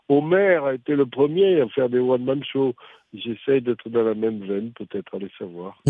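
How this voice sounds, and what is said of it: Southern French Midi accent. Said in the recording (French): “Votre accent me rappelle celui ... de celui de Fernandel ... mon accent est du Midi ... vous aviez l'accent du Sud-Est, finalement, celui de Fernandel, parfois”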